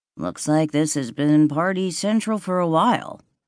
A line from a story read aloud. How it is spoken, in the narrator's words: Nate said, his voice flat